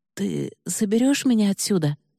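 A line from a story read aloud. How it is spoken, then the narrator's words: Hoarse blurted words. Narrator (Russian): Вырвалась у Киры, и она едва узнала собственный охрипший голос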